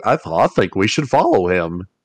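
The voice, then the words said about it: Goofy-style cartoon voice. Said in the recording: “good Goofy impression”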